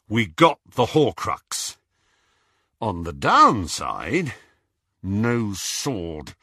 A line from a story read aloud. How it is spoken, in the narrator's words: said Harry through gritted teeth